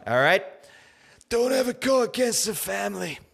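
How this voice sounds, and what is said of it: Not-so-good Godfather impression. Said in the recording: “That's not a good Godfather impression.”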